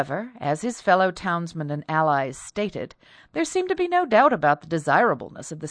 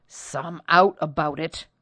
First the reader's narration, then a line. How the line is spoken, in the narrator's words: growled the new man over the counter